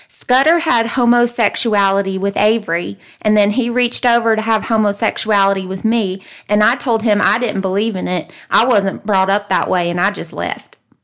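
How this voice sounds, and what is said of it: Put-on Southern country accent. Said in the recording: “I'm going to say it in his country accent ... I myself am from the South”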